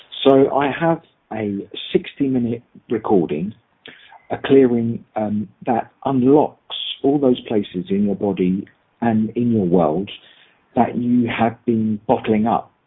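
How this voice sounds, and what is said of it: Very English accent. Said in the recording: “I'll use a very English accent”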